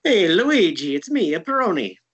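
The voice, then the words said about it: Exaggerated Italian accent like Mario. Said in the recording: “I'm not even going to attempt an Italian accent because I just sound like Mario when I do that”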